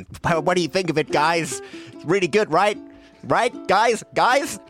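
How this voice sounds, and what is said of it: Put-on American accent. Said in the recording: “I've been working on my American accent.”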